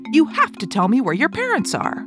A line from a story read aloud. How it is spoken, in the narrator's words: the rich man shouted again